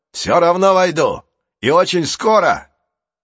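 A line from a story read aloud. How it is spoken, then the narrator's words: Shouting. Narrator (Russian): Манфред закричал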